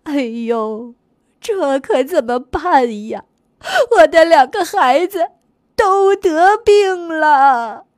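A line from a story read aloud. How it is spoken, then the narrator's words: Mother crying. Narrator (Chinese): 牛妈妈哭着说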